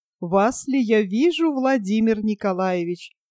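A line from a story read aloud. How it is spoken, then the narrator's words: Laughing woman. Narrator (Russian): Смеясь, повторила проезжая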